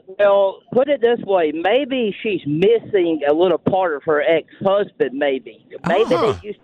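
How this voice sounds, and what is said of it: Southern US country accent. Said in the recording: “You have quite the accent ... from Southwest Georgia ... a country accent”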